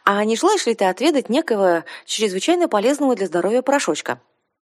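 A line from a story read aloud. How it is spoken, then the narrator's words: Exaggeratedly cheerful. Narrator (Russian): преувеличенно бодрым голосом начала я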